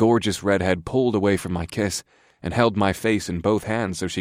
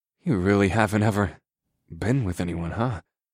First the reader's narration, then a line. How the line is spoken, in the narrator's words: I murmured into her welcoming lips